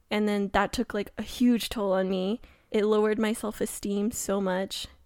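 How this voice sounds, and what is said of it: Shaky, tearful voice. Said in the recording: “my voice is getting shaky ... my voice is just getting really shaky”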